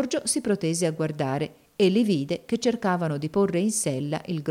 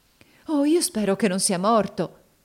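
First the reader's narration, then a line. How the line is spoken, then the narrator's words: Exclaimed. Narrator (Italian): esclamò Elisa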